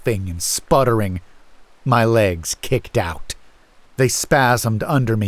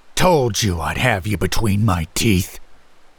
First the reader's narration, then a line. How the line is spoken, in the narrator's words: the dog man snarled